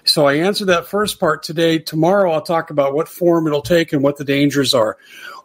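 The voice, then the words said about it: Hoarse, nearly lost voice. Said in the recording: “you can tell my voice is just about gone”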